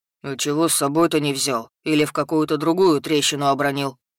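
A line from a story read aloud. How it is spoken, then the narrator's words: Surprised booming troll. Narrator (Russian): Удивленно прогудел тролль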